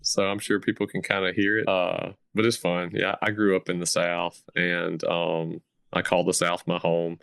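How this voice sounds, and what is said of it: Smooth Southern US accent. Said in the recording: “It's a smooth Southern voice... definitely a Southern accent”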